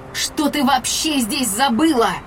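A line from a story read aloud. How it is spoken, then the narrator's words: Shouted. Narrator (Russian): Закричала я на Андарну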